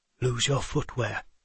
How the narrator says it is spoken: he whispered

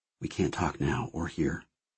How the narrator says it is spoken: he said, lowering his voice to a whisper

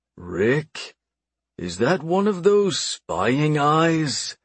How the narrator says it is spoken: I asked slowly

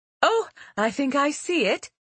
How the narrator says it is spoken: Hugild said excitedly

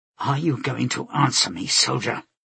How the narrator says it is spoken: Laura asked in a low tone

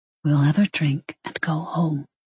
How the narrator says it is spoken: he whispered

